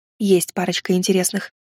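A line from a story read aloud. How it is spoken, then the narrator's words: Whisper. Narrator (Russian): шепнула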